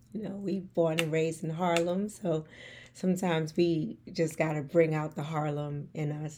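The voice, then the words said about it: New York accent. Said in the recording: “I want to hold on to my New York accent”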